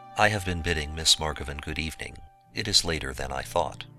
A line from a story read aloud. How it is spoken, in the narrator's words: said, as calmly as I could